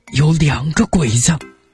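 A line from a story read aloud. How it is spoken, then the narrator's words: Low voice. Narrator (Chinese): 小嘎子低声说了句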